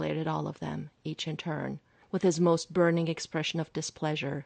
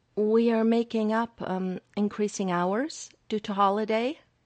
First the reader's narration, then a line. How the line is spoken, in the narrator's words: he faltered over the words